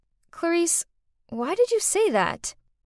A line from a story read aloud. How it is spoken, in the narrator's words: calmly said